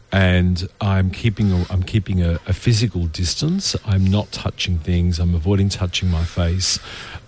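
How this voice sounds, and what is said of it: Slightly hoarse voice. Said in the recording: “If I'm sounding a bit hoarsey today, it's not because I've got a cold ... I actually had a late night”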